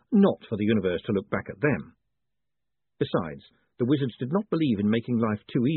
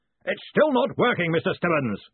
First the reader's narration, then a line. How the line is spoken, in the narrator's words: he bellowed